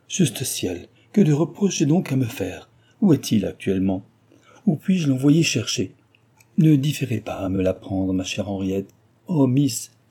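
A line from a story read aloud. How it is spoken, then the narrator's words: Tearful exclamation. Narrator (French): s'écria celle-ci, recommença à pleurer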